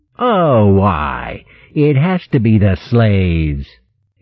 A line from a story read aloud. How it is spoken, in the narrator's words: he sneered scornfully